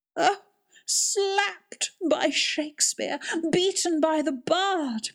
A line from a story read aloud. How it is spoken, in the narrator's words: cried Alderman Boxer, under the blows raining down on him